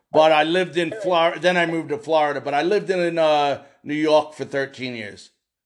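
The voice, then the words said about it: New York accent. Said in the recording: “I can tell that accent that you've got, my parents sound like you ... Are you from New York City?”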